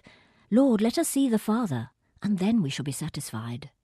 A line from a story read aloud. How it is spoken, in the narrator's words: blurts out